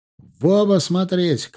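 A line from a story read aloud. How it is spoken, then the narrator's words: Shout. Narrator (Russian): крикнул я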